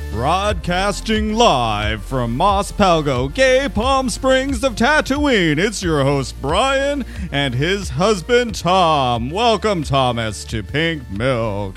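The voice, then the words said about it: Bad radio host impression. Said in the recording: “That was the worst radio impression ever.”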